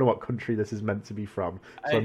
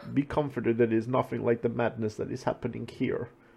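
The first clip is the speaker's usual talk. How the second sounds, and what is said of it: Generic put-on foreign accent. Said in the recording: “I'm just doing my general. I'm just doing general accents here.”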